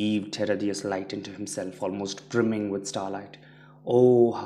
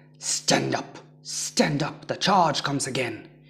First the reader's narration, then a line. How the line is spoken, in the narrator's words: Hisaka grunted as he pulled himself into his feet ... yelling at the others